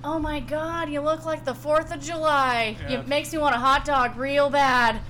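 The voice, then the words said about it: Imitates another person's voice. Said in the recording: “a pretty good Jennifer Coolidge impression”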